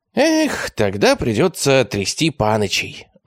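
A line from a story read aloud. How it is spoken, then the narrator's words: Sighing. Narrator (Russian): вздохнул тощий араб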